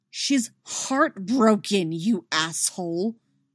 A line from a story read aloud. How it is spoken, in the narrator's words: she growls